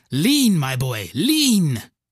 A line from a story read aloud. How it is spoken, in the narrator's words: Penumbra is shouting